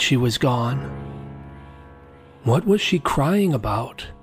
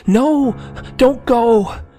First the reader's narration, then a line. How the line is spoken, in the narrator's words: I cried out